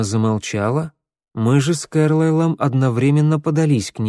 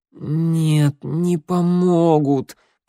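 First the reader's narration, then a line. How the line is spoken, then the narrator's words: Moaning. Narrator (Russian): простонала Эмма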